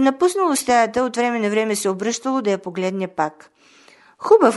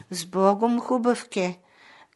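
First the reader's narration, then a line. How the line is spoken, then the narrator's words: Sad. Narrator (Bulgarian): казало тъжно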